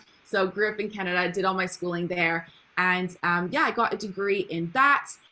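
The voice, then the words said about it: Canadian accent. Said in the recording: “Can you tell by my accent as well? I'm not from the UK originally, I'm from Canada.”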